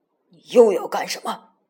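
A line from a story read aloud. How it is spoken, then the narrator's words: Stern question. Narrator (Chinese): 赶尸人厉声问道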